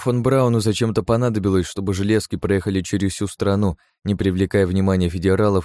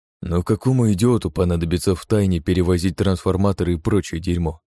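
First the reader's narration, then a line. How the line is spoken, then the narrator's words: Grumbling. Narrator (Russian): проворчал Кеннеди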